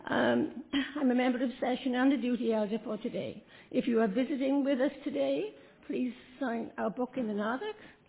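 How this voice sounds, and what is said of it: Froggy hoarse throat, accented speech. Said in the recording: “I've got a froggy throat today... my accent”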